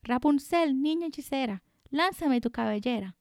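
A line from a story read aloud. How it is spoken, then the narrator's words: Shouted. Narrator (Spanish): Cotho gritó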